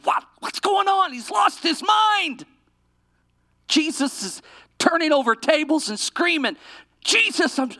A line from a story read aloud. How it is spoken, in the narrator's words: yelled out in a whisper